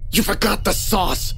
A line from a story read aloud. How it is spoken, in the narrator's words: with an expressionless face and hissed